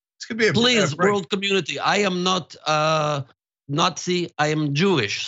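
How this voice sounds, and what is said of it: Put-on foreign accent. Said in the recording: “the accent”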